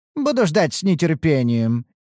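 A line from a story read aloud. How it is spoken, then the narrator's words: Laughing. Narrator (Russian): рассмеялся Бхарат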